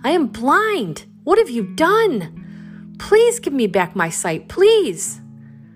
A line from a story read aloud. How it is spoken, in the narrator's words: The man cried out